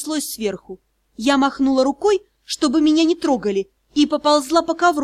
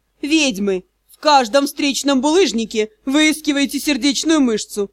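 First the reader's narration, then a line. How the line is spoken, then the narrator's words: Mocking reply. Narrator (Russian): насмешливо ответил Элохор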